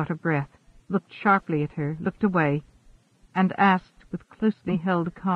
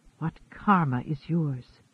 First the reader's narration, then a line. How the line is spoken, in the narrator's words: he whispered